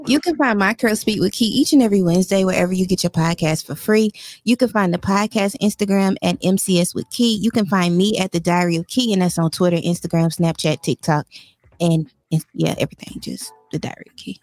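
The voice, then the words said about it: Polished podcast-host voice. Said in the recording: “was that your podcast voice? ... In your podcast voice?”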